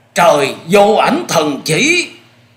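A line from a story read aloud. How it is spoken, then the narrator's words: Agonized screams, many men. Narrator (Vietnamese): 12 gã đàn chủ bị luồng chỉ phong ấy quét trúng lập tức rú lên những tiếng thảm thiết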